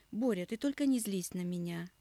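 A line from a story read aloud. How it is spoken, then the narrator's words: Almost fatherly tone. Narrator (Russian): Почти отеческим тоном начал разговор Гладилин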